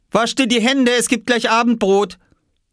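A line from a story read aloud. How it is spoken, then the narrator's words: Mother calling. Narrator (German): rief Mama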